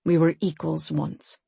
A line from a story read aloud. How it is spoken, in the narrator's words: he said quietly